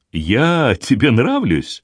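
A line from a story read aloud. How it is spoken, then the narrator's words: Forced cheerful question. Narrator (Russian): спросила Гвендолин, стараясь говорить весело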